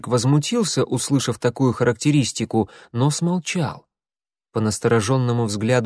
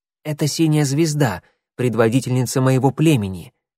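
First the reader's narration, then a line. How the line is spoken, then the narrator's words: Hurried whisper. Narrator (Russian): торопливо зашептал клубок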